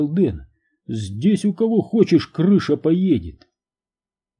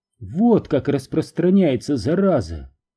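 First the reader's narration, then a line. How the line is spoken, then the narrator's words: Sighing. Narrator (Russian): вздохнув, сказала она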